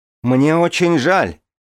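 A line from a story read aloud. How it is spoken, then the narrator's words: Shouted reply, at a loss. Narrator (Russian): крикнула я в ответ, потому что не знала, что еще сказать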